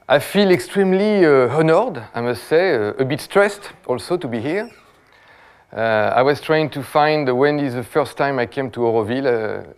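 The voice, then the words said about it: French-accented English. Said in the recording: “my French accent”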